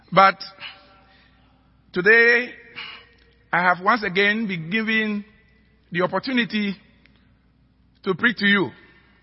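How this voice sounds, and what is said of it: African-accented English. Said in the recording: “my accent ... sermons brewed in an African pot”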